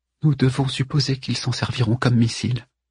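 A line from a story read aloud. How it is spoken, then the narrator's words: Murmured. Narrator (French): murmura Cyrus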